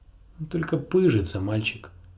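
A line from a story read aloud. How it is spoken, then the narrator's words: Plain. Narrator (Russian): сказал сир Родрик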